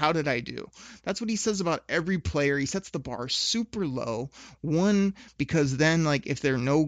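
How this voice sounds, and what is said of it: Usual voice. Nothing is said of it.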